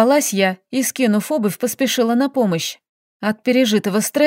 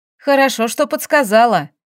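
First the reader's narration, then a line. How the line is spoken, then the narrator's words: Grumbling with full mouth. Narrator (Russian): Пробурчала я с неприлично набитым ртом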